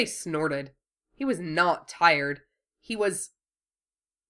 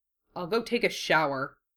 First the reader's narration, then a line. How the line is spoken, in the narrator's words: he muttered